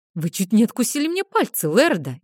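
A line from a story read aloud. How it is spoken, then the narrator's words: Frightened. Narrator (Russian): испуганно заявил Нейтан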